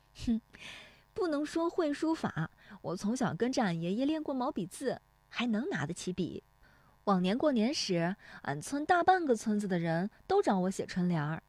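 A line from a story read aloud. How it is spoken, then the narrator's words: Laughing. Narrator (Chinese): 乔红梅笑说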